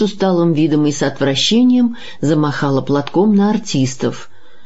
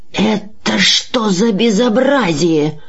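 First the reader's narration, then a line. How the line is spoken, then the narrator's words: Hoarse, frightened, angry whisper. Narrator (Russian): захрипел он сдавленным, испуганным и в то же время начальственно сердитым шепотом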